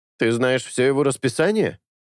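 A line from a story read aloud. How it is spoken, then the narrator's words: Skeptical grunt. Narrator (Russian): Чезаре хмыкнул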